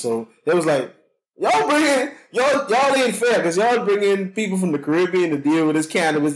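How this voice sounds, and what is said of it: Bahamian accent. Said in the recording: “they love my accent, by the way. The Bahamian accent”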